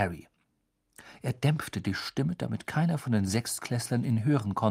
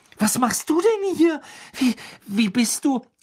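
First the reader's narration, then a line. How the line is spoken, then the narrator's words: Shrieked. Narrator (German): kreischte Hermine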